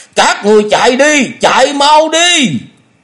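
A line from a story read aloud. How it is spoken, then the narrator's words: Loud shouting. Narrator (Vietnamese): miệng hét lớn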